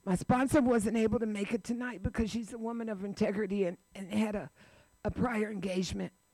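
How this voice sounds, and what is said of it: Strained, effortful emotional voice. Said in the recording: “You can hear it in my voice. I sound ridiculous. ... you have to push the words out because it's difficult.”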